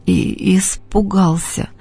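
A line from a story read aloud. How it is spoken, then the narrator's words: Sobbing. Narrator (Russian): произнес Костя, всхлипывая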